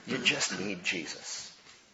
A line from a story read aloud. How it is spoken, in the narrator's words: in our sighing, be led to say